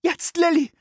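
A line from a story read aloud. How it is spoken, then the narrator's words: Calling out. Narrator (German): rief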